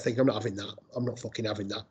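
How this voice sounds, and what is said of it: Put-on Scouse accent. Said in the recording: “in a Scouse accent”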